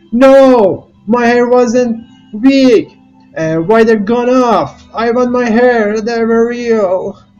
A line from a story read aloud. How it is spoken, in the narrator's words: shouted